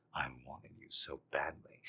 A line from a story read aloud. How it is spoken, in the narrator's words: he murmured